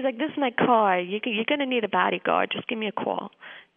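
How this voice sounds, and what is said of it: New York accent impression. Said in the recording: “you did a perfect imitation of that CIA agent ... He was complete New Yorker ex-CIA.”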